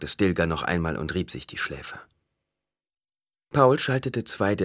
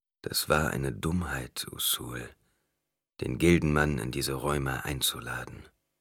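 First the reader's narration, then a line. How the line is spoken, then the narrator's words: Quiet. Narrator (German): Stilgar sagte leise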